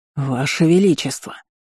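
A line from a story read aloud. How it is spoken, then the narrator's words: Growling elder. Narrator (Russian): зарычал старейшина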